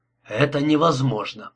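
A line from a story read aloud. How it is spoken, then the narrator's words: Hoarse repetition. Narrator (Russian): хрипло повторил он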